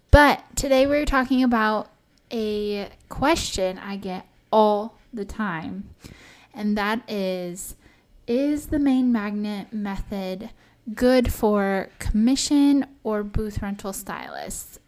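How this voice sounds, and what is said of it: Strained voice from a cold. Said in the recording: “my voice sounds a little different or strained. I am getting over a cold”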